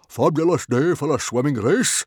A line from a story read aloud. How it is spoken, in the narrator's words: he roared happily